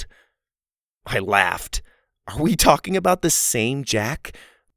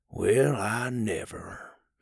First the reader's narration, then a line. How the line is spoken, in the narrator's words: he mumbled